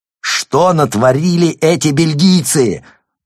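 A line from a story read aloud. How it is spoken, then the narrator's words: Yelling over thunder. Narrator (Russian): заорал Рван, перекрывая помехи и грозовые раскаты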